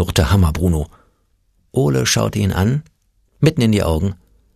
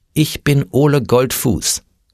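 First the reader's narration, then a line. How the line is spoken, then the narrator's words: Firm voice. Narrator (German): sagte Ole mit fester Stimme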